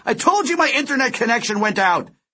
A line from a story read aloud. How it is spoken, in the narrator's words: Delio shouted